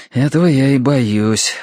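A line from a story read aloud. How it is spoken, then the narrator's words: Sighed. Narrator (Russian): вздохнул Терренс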